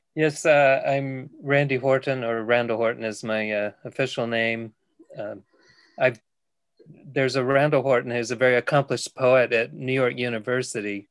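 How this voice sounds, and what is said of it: Non-local accent. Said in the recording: “people may twig that you're not local from New Mills, your accent.”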